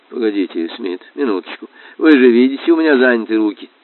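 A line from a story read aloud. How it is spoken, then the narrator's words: Muttering teacher. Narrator (Russian): учитель бормотал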